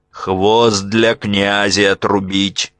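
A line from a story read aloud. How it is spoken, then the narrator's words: Stern command. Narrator (Russian): строго приказал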